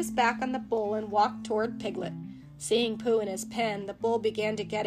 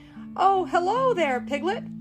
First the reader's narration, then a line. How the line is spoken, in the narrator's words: Pooh shouted back